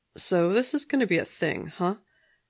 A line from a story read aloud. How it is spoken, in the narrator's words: the guy said dryly